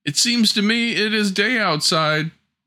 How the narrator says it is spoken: a voice inside the stove cried

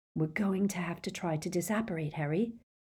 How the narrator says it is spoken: Hermione whispered

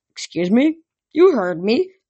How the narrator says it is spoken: Etherion grumbled

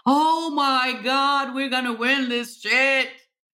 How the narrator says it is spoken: I was screaming … and just said

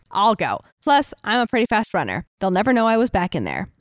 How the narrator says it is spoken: Willow said

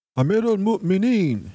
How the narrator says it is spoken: shouted the Umayyad messenger

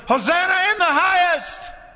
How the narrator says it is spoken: who yelled

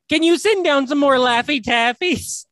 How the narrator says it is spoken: this kid goes, he like yells up at the top of the chute and just yells up

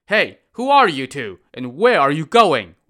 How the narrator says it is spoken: Wang Ying shouted at the travelers

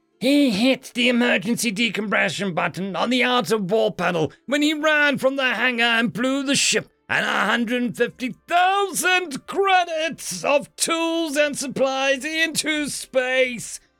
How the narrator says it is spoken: screamed Snert

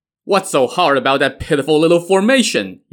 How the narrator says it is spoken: Yan Shou scoffed as he roared with laughter

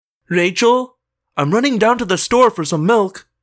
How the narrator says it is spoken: my mom yelled up the stairs

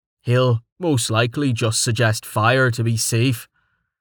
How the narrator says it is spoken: Quiss pointed out

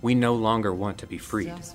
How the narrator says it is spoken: in a calm voice

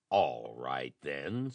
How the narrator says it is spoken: snarled Nelson

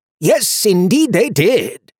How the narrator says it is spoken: said brightly

